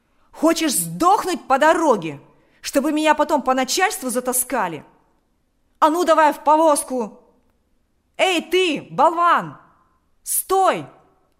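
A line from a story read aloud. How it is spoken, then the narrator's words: Shouted. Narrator (Russian): закричал он кучеру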